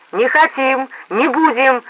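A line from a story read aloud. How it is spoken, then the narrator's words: Excited crowd shouting. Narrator (Russian): закричали возбужденные голоса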